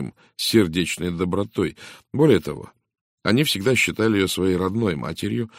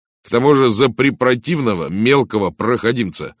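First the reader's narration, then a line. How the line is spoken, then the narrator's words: Angry exclamation. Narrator (Russian): гневно воскликнул он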